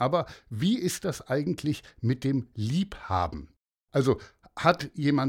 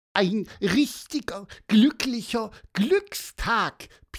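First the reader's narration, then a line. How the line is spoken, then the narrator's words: Squeaky. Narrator (German): piepste Piper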